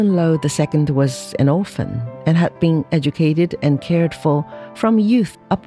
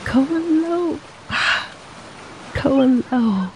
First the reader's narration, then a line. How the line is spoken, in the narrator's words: cooed Xie softly and happily as she recognized her lover